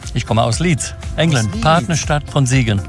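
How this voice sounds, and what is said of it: Speaks German with a foreign accent. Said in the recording (German): “Du hast Akzent.”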